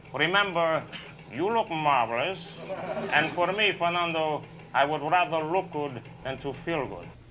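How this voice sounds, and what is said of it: Not-so-great Billy Crystal Fernando impression. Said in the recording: “the old Saturday Night Live sketch with Billy Crystal ... I guess my accent isn't that marvelous”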